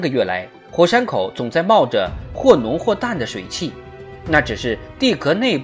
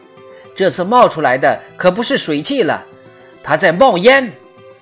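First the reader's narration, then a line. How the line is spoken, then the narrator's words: Alarmed exclamation. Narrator (Chinese): 水手惊叫道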